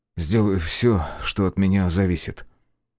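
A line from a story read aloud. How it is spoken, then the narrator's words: Sighing. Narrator (Russian): он вздохнул и сказал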